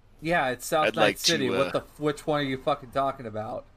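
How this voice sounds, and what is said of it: Thick put-on Boston accent. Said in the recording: “very thick Boston accent”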